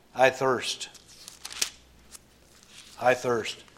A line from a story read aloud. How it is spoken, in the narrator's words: the Lord Jesus again cries out